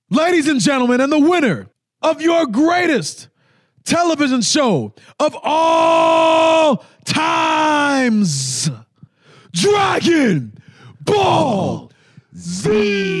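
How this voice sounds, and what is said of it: Booming announcer voice. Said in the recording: “You got the announcer voice. You're doing VO work.”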